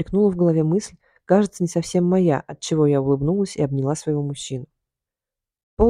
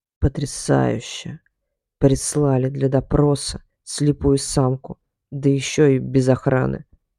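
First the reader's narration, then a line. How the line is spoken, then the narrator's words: Lizard's ironic hiss. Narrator (Russian): прошипел ящер с иронией в голосе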